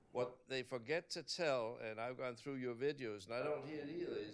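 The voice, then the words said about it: Danish accent. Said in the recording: “having my accent, people say, oh, you're from Denmark.”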